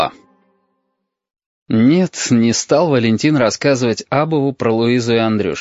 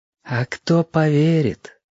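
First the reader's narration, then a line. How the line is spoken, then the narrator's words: Gentle remark. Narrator (Russian): ласково заметил Разин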